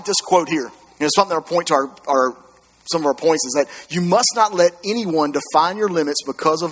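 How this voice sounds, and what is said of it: Usual voice. Nothing is said of it.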